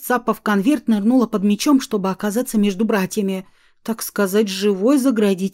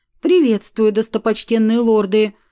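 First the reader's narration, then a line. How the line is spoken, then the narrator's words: Loud reading aloud. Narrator (Russian): зачитала громко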